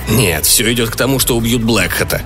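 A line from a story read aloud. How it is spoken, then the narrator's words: Irritated grumbling. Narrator (Russian): с раздражением проворчал полковник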